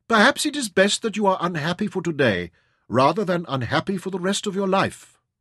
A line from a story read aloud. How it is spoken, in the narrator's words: Nazira said sadly